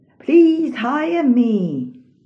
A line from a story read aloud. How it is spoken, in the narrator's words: the man exclaimed